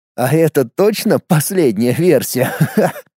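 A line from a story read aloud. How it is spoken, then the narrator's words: Laughing. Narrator (Russian): Засмеялся я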